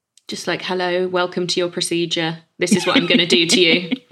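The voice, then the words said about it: Flat monotone delivery. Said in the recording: “that was so monotone”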